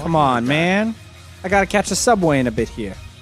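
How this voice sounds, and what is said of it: Put-on New York accent. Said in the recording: “Why do you sound like you're from Brooklyn, New York? ... Using a Jersey accent ... Sounds more like ... Boston ... now you sound like you're from New York”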